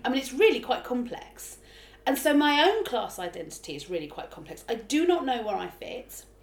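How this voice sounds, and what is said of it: Accent shifting between Cockney and middle-class. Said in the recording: “my accent bounces around ... my accent goes from quite sort of London Cockney to quite middle class within the space of a sentence”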